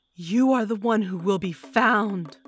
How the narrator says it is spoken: I bellowed at the man

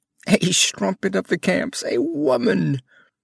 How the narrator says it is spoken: They howled it like an epithet

